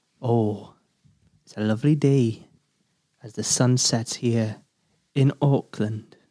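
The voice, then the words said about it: Put-on Welsh accent. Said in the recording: “I'll do it in a Welsh accent again.”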